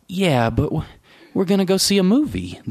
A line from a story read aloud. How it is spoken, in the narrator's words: the man said, his voice cracking